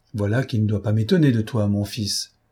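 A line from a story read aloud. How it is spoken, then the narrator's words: Father's calm voice. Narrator (French): répliqua le père d'une voix tranquille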